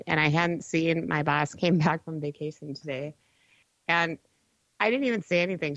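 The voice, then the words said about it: Sick, off-sounding voice. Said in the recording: “Trying to get over the sickness ... you can hear it in my voice, right? My voice isn't quite right.”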